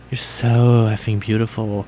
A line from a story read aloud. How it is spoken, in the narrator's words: Draco said in a sexy voice